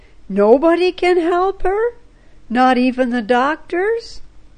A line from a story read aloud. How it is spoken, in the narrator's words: Kimo exclaimed incredulously